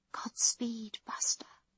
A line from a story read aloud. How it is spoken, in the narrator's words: she whispers